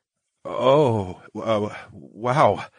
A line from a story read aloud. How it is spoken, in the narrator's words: I stammered